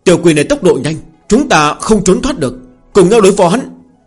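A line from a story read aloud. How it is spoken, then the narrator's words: Terrified shout. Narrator (Vietnamese): Mấy tên đệ tử này kinh hãi, có người hét đến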